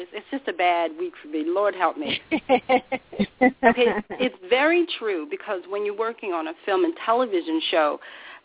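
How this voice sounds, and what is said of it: Strained, fading voice. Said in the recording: “I'm losing my voice today, too. ... I'm losing my voice.”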